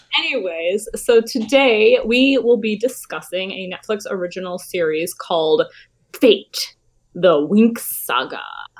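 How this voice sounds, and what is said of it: Raspy voice. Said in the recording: “my throat is raspy today... this sounds more raspy than it normally is”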